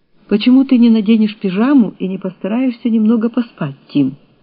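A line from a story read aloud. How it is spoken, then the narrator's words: Plain. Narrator (Russian): спросила она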